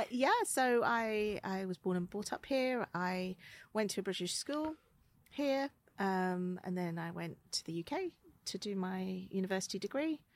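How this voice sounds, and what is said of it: Very English accent. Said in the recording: “your very English accent”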